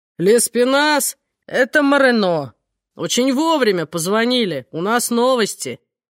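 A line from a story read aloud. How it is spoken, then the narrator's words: Deep bass voice. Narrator (Russian): кто-то пробасил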